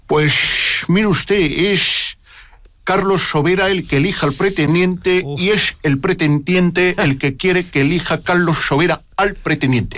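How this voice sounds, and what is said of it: Imitates a politician's voice. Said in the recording (Catalan): “imitación ... Se me da, creo que muy bien Rajoy”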